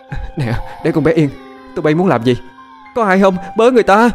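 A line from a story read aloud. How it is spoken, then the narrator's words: Frantic screaming. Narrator (Vietnamese): Diễm sợ con bé té hoảng loạn, gào thét điên cuồng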